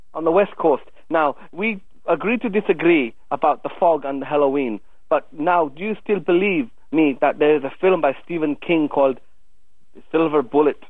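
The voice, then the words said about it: Thick Scottish accent. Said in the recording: “is from Scotland ... that thick Scottish accent you've got.”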